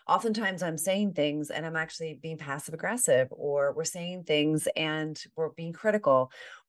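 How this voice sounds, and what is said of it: Slightly hoarse voice. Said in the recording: “I'm actually a little hoarse today ... You can hear that in my voice”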